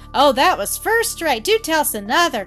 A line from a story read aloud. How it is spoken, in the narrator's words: cried Rhoda Jane, holding her sides